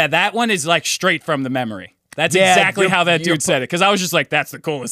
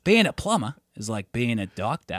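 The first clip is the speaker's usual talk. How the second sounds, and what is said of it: Good put-on Australian accent. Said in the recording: “your Australian accent got really good. ... That was really good.”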